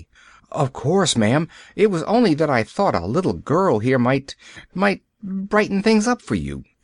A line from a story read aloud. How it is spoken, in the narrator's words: she faltered